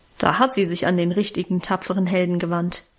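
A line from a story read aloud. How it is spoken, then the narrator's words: Mocking. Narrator (German): meinte ich spöttisch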